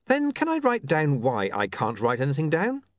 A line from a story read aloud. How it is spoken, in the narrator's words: William said, smiling brightly